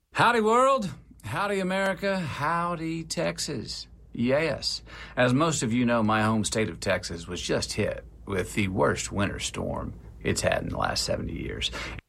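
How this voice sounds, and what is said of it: Thick Texan American accent. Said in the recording (Danish): “altså texansk, også tyk texansk accent ... virkelig har en fed stemme”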